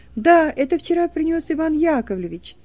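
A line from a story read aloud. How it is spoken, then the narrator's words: Loud small child. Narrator (Russian): трехлетний мальчик громко говорит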